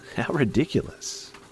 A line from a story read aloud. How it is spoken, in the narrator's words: Connor said with a laugh